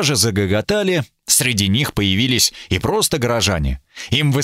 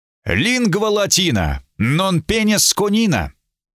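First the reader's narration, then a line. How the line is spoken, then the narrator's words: Loud and solemn. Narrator (Russian): сказал громко и торжественно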